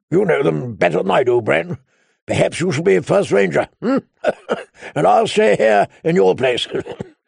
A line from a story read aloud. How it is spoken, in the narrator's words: Benjen Stark had laughed and said